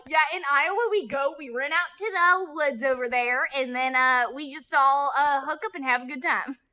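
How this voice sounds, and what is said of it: Put-on southern accent. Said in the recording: “Why did you use a southern accent?”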